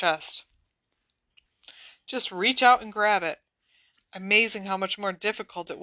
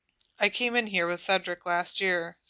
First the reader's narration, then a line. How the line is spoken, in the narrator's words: said Cho